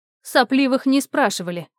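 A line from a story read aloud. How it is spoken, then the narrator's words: Curt rebuke. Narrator (Russian): осадила его Глафира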